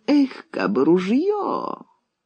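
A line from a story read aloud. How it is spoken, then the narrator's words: Pitiful voice. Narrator (Russian): жалостливым голосом проговорил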